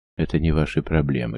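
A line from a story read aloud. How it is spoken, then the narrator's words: Calm reply. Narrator (Russian): спокойно отреагировал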